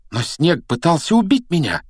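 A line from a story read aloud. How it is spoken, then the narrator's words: Exclamation. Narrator (Russian): воскликнул он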